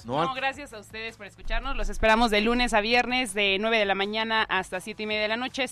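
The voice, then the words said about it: Radio announcer-like voice. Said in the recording (Spanish): “¿Tienes voz de locutora, te han dicho? ... Tienes voz de locutora”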